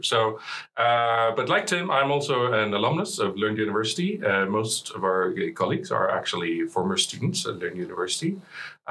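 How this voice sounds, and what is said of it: Slight Swedish accent in English. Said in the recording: “You're actually a Swede... Maybe people could tell from a slight accent of my English”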